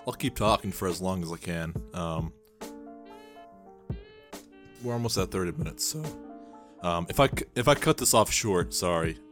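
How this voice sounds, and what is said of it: Strained, sore-sounding voice. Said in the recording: “my voice is hurting ... my voice is kind of hurting right now”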